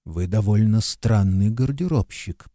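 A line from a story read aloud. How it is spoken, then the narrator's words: Stranger muttering. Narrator (Russian): пробормотал незнакомец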